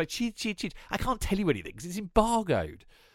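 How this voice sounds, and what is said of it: Imitates another person's voice. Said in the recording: “good impression. ... Wasn't bad. Wasn't bad. Well, I've been practicing.”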